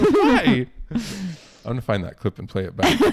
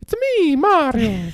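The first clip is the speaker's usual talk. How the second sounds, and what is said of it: Mario character voice impression. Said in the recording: “your best Mario impression”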